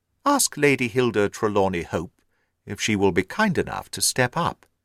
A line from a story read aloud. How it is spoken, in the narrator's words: said he